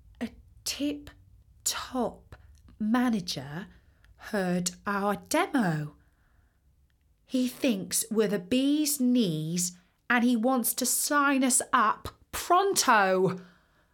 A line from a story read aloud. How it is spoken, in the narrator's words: she said very calmly